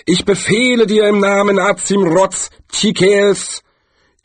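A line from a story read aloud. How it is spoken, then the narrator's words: Deep breath, then call. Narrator (German): holte tief Luft und rief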